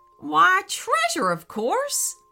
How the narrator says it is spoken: laughed the jackalope

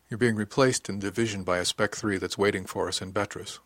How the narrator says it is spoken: she said quietly

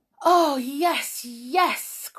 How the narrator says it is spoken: cried Jump, wiping his eyes

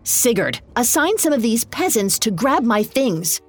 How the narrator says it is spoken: snapped

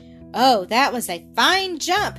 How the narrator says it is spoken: exclaimed Blackie

